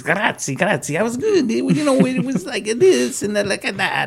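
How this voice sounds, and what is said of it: Bad put-on Italian accent. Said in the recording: “That was a bad Italian accent, but it sounded like him.”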